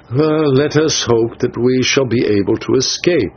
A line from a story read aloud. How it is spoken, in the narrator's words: I answered